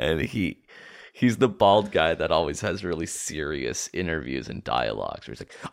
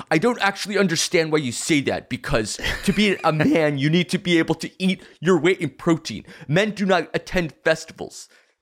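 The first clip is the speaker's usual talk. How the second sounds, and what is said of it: Imitates another person's voice. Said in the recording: “That's a good impression.”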